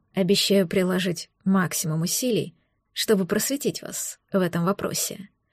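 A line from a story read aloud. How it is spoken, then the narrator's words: Purring in the ear. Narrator (Russian): промурлыкал на ушко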